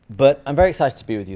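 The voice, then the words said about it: English accent. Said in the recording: “I am originally from England ... having your formative years in England is you end up with this delightful accent ... I'm not always easy to understand”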